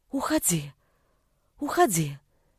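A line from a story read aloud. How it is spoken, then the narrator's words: Quiet reply. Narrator (Russian): так же тихо ответила мама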